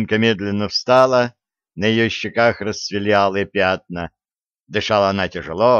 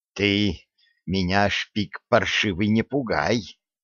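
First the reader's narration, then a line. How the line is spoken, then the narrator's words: Through gritted teeth. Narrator (Russian): сквозь зубы проговорила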